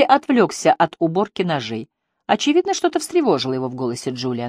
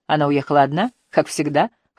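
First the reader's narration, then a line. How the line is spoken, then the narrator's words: Dry snort. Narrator (Russian): хмыкнул Энди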